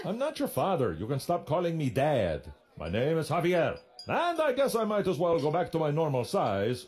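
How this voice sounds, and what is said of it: Speaks with a put-on accent. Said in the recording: “Can you do something about that accent?”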